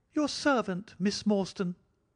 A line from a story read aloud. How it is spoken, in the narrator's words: he kept repeating in a thin, high voice